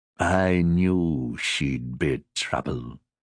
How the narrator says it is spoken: He muttered

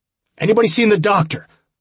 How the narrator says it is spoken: I shouted again

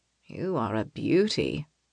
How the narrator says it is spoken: the sergeant mutters

